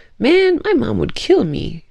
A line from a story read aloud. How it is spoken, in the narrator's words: Julian laughed